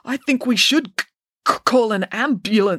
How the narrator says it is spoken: stammered Joe

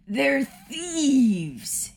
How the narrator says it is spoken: he yelled, letting out a sad little sob

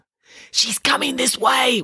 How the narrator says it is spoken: whispered Nanny Piggins

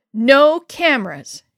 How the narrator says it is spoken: yelled

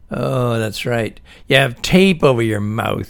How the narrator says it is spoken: said, and laughed

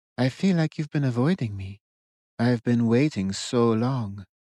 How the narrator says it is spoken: Moona cooed

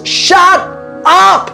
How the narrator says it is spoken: I shouted at the top of my lungs

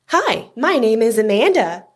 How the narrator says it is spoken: she said cheerfully

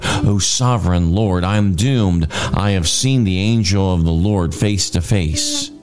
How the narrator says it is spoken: When Gideon realized that it was the angel of the Lord, he cried out

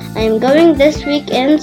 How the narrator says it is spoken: said Bella

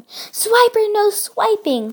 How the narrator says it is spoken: they all yelled together

